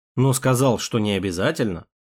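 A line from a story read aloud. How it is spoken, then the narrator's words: Smirking grunt. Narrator (Russian): Хмыкнул я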